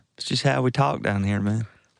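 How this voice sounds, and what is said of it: Put-on Southern accent. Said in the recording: “the side cock when you're doing your southern accent”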